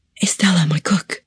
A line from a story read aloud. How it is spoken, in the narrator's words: Catalina, her eyes darting around the room, whispered